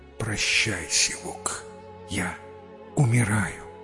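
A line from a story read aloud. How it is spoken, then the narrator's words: Weak dying whisper. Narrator (Russian): Из последних сил прошептал на ухо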